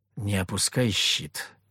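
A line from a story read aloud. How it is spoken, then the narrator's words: Whisper. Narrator (Russian): шепнул я Морозовой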